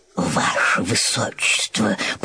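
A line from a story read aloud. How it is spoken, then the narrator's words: Whisper in ear. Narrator (Russian): прошептал на ухо принцу старший камергер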